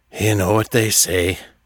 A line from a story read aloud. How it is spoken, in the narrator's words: Artax sighed